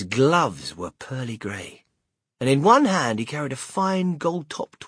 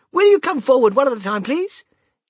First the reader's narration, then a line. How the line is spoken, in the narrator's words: he called out